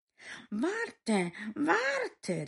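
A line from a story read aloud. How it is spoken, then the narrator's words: Frog calling out. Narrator (German): rief der Frosch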